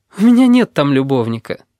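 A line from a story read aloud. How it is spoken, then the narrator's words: No longer laughing. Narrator (Russian): говорит русалка, перестав смеяться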